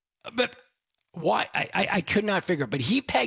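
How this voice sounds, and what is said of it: Usual voice. Nothing is said of it.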